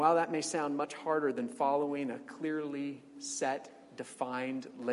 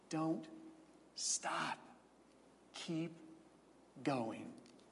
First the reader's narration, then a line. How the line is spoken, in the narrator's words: whispers